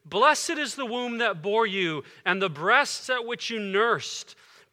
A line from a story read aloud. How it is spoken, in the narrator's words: one of the women in the crowd raised her voice and said to him